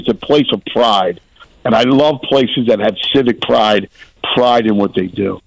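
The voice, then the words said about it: Distinctive regional accent. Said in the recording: “That's Anthony Gargano right there on the Payless Liquors hotline. Love that accent.”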